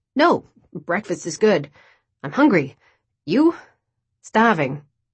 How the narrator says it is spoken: Choking over my words, I said

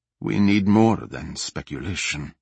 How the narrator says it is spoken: Nassar said, trying to keep his voice even

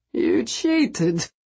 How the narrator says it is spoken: he muttered

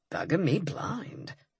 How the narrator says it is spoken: he said softly

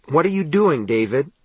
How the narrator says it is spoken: Ralph asked tightly

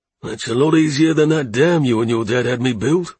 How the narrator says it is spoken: said with a chuckle

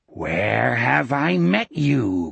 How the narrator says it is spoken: Gardner rasped

